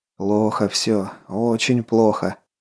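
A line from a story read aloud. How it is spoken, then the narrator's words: Muttered. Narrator (Russian): пробормотал Головин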